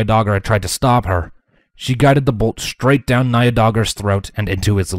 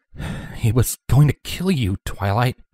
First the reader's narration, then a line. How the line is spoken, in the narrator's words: Spike muttered